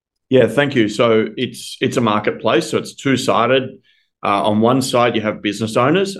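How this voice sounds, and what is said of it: Australian accent. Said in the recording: “I'm sure the audience is going to love the accent ... I'm calling in from Melbourne, Australia ... your accent just like pulls me in”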